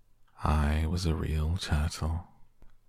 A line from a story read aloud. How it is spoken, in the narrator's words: said the Mock Turtle at last with a deep sigh